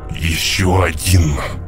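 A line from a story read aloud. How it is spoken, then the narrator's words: Sudden wheezing voice behind. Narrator (Russian): Вдруг послышался хрипящий голос позади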